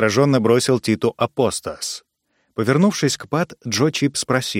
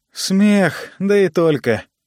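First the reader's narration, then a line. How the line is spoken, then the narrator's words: Sighing. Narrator (Russian): вздохнул Джо Ид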